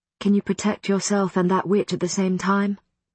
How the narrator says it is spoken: Marcus asked quietly

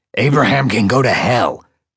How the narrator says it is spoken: Prof spat

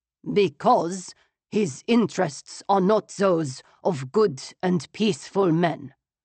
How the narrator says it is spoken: the Chancellor said sternly

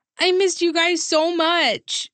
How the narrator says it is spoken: I shouted

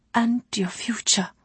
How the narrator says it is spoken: she added in a shy whisper

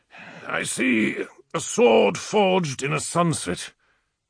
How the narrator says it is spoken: he had told us in a strained tone

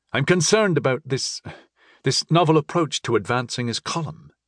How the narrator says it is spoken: he added nervously

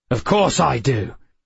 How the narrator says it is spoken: Sharon barked

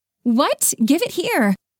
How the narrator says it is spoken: Vivian yelled from the passenger seat

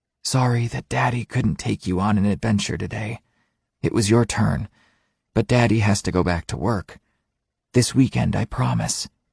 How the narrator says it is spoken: whispered softly

